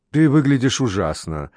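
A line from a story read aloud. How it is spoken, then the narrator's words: Plain. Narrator (Russian): сказала ей Флора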